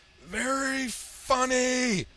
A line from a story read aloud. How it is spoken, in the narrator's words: Hellboy bellowed